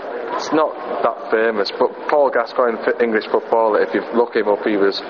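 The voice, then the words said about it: Geordie English accent. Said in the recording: “how do you describe your English accent? ... I'm Geordie. Geordie, yeah.”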